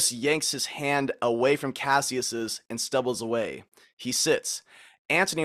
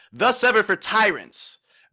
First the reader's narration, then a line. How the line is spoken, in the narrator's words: Cassius triumphantly says